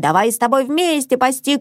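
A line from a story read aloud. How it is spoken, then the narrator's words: Shout. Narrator (Russian): кричала Мона Мацу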